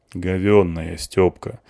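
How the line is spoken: Sighing woman. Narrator (Russian): вздохнула вторая

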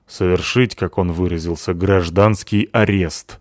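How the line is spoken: Angry. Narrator (Russian): сообщила зло Натаха

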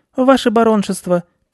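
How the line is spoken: Squeaky mouse voice. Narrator (Russian): пискнул мышь

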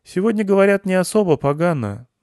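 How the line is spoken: Sighing. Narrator (Russian): вздохнул Васятка

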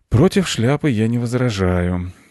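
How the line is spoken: Sighing, father. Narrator (Russian): вздохнул папа

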